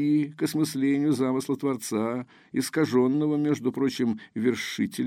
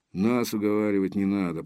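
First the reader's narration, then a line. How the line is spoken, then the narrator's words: Grumbling mutter. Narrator (Russian): пробурчал, наконец, Железовский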